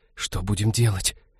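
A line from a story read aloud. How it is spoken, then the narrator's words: Whispered. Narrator (Russian): прошептала Ивета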